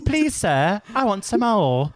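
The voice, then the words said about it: American doing exaggerated British accent. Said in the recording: “How's ... British accent? ... Every American that I come across that does a British accent, they always try to sound like Oliver Twist or something.”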